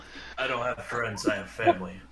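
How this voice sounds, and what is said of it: Poor Vin Diesel impression. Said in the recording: “terrible Vin Diesel impression”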